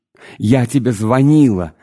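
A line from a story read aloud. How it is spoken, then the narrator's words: Shouted. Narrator (Russian): закричала Тамара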